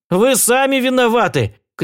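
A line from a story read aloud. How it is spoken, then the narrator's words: Shouted back. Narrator (Russian): кричал в ответ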